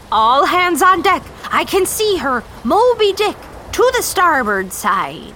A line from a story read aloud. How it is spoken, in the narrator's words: Captain Ahab was shouting